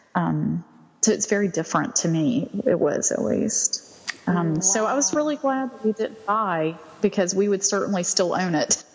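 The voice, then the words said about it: Southern American accent. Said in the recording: “I just love your accent. I'm a sucker for a Southern accent.”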